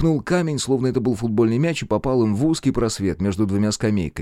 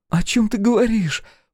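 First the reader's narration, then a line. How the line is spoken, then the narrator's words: Exclamation. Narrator (Russian): воскликнула Алиса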